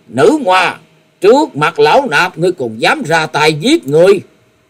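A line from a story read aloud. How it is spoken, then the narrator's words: Angry monk shouting. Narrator (Vietnamese): Thiếu Lâm Điền Tăng tức giận quát lớn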